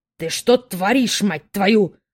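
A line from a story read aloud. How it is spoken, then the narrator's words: Angry growl. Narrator (Russian): рычал отец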